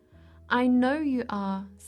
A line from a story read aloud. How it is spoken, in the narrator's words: said the mother